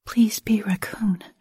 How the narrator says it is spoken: I whispered under my breath

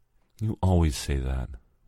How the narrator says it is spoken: whispered Alfonso

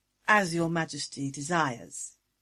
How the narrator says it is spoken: purred

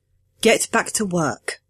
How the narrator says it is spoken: I said, firmly but gently, the way you'd talk to a skittish pup

